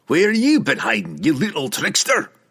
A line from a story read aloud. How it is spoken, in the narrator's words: Brunner roar, and the dwarf's sheer volume